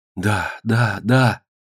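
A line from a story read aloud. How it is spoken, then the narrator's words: Passionate whisper. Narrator (Russian): страстно зашептала Фиванка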